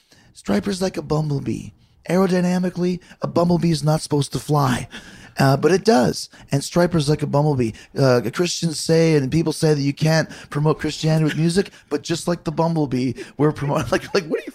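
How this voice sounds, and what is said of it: Impression of Robert Sweet. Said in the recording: “best Robert Sweet impression”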